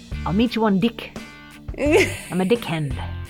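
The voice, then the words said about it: Put-on New Zealand accent. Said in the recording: “your New Zealand accent?... Yes, New Zealand is”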